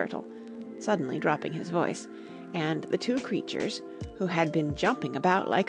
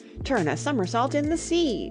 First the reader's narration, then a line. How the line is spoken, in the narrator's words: cried the Mock Turtle